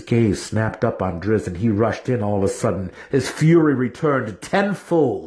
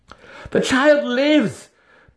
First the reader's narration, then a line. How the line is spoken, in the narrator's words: Drizzt gasped